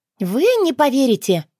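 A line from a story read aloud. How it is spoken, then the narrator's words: Joyful announcement. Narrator (Russian): радостно оповестила я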